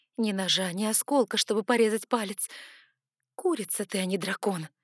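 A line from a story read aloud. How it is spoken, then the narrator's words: Cynical creaky inner voice. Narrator (Russian): Цинично проскрипела моя внутренняя язва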